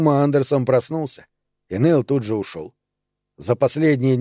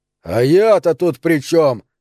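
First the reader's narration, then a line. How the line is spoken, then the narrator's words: Yelled. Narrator (Russian): заорал Нейл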